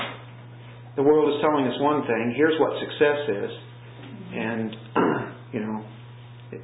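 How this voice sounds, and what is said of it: Usual voice. Nothing is said of it.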